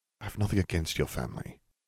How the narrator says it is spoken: Harry murmured

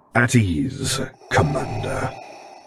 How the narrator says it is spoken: Vader rumbled out

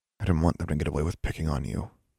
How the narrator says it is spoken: Alexandra muttered

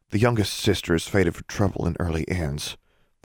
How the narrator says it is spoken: Forbearance said, much more quietly

